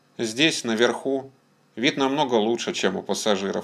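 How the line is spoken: Plain. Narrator (Russian): сказал он

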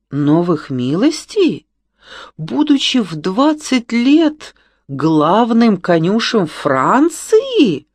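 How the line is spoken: Indignant exclamation, woman. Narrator (Russian): негодующе воскликнула госпожа де ла Флот

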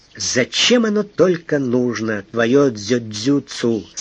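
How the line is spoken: Plain. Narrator (Russian): сказал он

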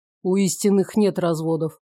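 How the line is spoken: Snorting, amused. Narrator (Russian): хмыкнул Ирман

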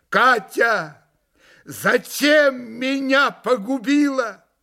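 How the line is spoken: Loud sobbing. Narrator (Russian): громко зарыдал было на всю залу

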